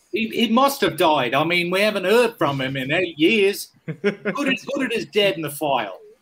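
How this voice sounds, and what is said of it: Put-on Australian-ish accent. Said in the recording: “I know that's an Australian accent. ... I thought it was a bit of a Nigel Tufnell sort of.”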